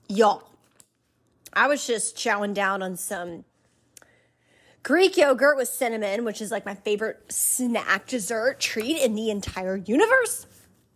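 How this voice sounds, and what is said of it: Southern twang. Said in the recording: “my southern twang”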